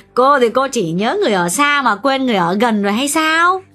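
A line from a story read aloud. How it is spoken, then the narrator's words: Laughing loudly. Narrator (Vietnamese): Bà chủ nhà cười lớn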